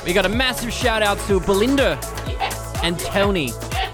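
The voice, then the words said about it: Put-on accent. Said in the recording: “With the accent change. I just thought I'd change things up a little bit.”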